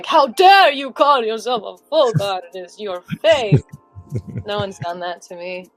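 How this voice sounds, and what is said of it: Put-on Russian accent. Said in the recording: “I did that in like a Russian accent.”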